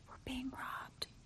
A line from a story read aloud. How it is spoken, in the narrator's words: whispered to me